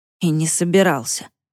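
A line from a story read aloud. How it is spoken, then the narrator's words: Grumbling mutter. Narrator (Russian): буркнул Дима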